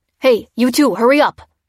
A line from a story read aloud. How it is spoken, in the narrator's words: barked a soldier